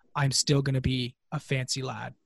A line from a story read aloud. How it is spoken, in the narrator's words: whisper to you very seriously